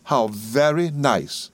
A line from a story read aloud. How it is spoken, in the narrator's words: exclaimed Miss Dartle